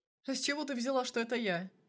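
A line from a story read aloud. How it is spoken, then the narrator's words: Snort. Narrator (Russian): фыркнул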